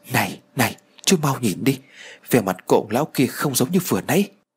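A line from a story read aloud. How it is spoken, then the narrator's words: Frightened. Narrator (Vietnamese): sợ hãi rồi nói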